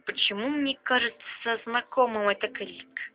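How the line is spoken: Muttering. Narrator (Russian): пробормотал Грей

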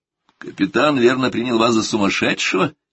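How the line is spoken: Laughing. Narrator (Russian): смеясь сказал я

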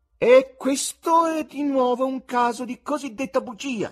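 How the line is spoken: High bleating tenor voice. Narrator (Italian): dichiarò egli con alta voce tenorile da caprone

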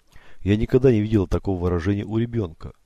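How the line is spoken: Plain. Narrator (Russian): Мэри сказал он

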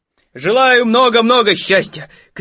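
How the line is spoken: Shouting. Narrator (Russian): кричал Пух

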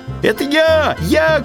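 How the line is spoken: Hare shouting. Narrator (Russian): кричал заяц

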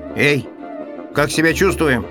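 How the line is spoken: Shout. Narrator (Russian): крикнул первый марсианин

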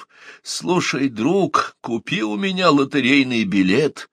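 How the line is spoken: Hoarse voice. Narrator (Russian): хриплый голос

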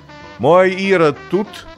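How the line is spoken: Loud question. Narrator (Russian): громко спросила она с порога

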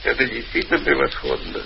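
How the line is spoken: Bitter laughter. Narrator (Russian): Тимофеев горько засмеялся

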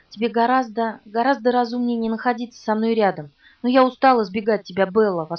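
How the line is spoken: Passionate emotional exclamation. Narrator (Russian): воскликнул он так страстно, с такими эмоциями

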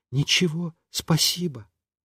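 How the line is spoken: Said quietly. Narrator (Russian): сказала тоже тихонько

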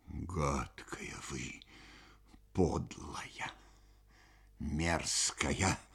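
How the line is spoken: Hateful mutter. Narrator (Russian): пробормотала незнакомка с ненавистью и отвращением

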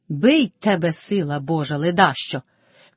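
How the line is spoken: Shouting. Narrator (Ukrainian): крикнула Мотря

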